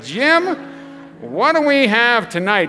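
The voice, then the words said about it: Imitates another person's voice. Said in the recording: “I just nailed the impersonation.”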